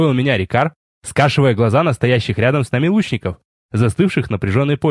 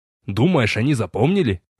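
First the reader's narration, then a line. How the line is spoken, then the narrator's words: Scoffing snort. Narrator (Russian): хмыкнул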